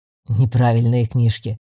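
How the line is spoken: Grumbling mutter. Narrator (Russian): пробурчал Майл

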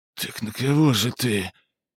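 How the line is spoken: Breathless exhale. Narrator (Russian): выдохнул он

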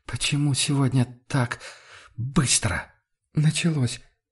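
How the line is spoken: Halting breathy voice. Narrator (Russian): разомкнула губы Амалия и прерывисто выдохнула

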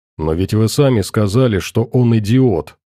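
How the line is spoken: Plain. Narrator (Russian): спросил Максим

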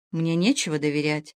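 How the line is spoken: Sorrowful, barely audible reply. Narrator (Russian): Мария тоскливо едва слышно отвечала

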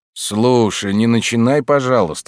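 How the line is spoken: Groaning. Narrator (Russian): застонал Деймос

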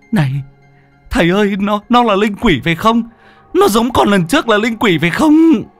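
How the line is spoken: Shriek. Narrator (Vietnamese): nó rú lên

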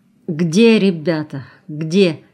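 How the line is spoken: Trembling voice. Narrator (Russian): дрогнувшим голосом спросил Краснов

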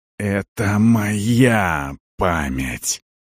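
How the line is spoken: Hissing. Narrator (Russian): прошипел Арон

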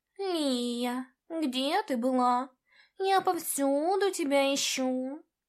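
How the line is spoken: Purring. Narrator (Russian): Промурлыкал

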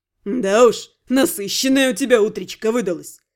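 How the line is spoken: Snorting, amused. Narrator (Russian): хмыкнул вор

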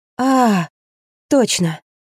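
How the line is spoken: Breathy exhale. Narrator (Russian): Рина выдохнула

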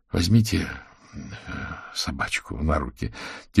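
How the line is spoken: Quiet. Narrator (Russian): тихонько сказал он княжне

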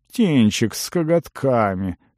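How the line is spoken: Grunt from above. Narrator (Russian): хмыкнул кто-то над головой

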